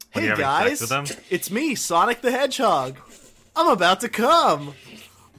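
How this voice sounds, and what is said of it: Cartoon hedgehog character voice. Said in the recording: “my Sonic impression”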